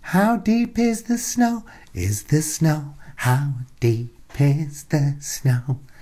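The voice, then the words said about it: Imitates another person's voice. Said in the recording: “That was my impression of a Bee Gee”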